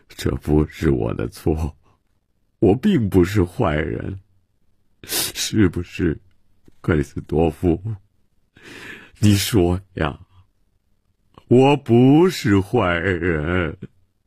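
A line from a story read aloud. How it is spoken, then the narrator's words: Self-pitying lament. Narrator (Chinese): 曼西沃自怨自叹地说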